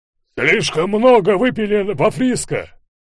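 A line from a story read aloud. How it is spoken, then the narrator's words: Shout. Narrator (Russian): закричал волк Ларсен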